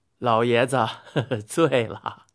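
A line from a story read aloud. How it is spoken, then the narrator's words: Laughing. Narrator (Chinese): 后羿笑着说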